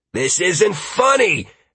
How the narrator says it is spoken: Halcyon shouted back

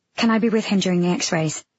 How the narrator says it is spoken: I asked

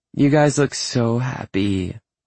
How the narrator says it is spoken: Andy says in a sugary sweet voice

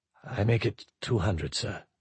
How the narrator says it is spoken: Bichet said softly

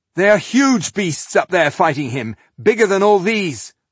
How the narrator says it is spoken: Rodario shouted

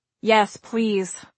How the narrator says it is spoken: I said

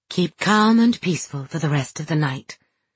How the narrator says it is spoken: she said gently

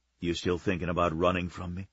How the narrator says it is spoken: He whispered the question, his breath warm in her ear

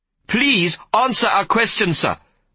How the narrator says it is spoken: Jaime shouted

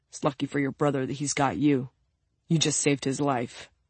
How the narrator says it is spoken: One of them mutters to Katya

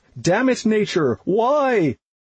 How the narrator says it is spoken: I laughed

